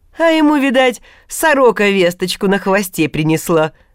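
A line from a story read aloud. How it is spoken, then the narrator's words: Scoffing snort. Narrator (Russian): хмыкнул разговорчивый Неждан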